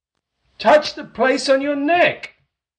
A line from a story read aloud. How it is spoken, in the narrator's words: Jim cried out